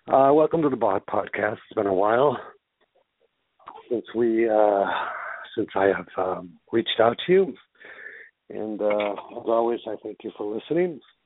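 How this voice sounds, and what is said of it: Breathless, out of breath speaker. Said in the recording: “I'm a little bit out of breath. ... I got to catch my breath”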